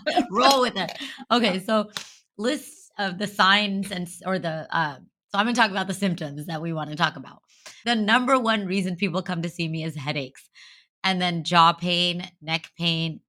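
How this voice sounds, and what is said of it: Hoarse, strained voice. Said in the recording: “I am losing my voice ... I talk too much.”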